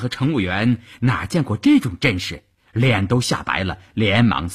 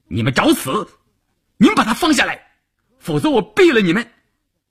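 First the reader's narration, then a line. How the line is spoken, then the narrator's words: Frantic angry roar. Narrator (Chinese): 晋中人一时急了，冲着车长和乘务员吼道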